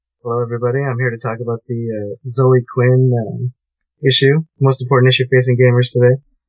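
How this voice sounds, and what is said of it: Hoarse, worn-out voice. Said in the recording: “My voice is so shot.”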